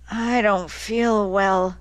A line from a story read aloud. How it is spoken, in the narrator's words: Tulsi mumbled